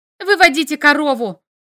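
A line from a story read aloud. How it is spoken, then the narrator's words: Urgent shout. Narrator (Russian): крикнула я, понимая, что мы рискуем остаться ни с чем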